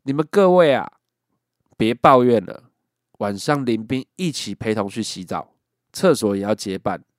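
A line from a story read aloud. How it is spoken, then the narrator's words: Loud roar. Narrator (Chinese): 班长大声的吼道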